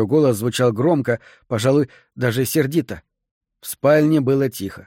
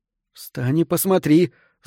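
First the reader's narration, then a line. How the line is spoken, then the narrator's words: Angry breathy exhale. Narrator (Russian): зло выдохнула она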